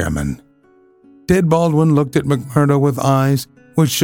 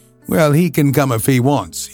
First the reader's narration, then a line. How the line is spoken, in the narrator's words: he said in a surly voice